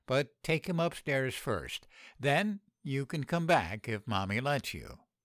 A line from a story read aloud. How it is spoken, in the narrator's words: I sighed